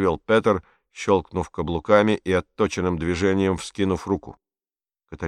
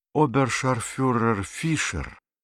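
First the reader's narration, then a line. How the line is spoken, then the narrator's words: Sighing reply. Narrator (Russian): вздохнув, ответила Катарина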